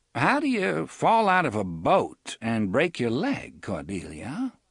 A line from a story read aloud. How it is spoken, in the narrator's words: She laughed merrily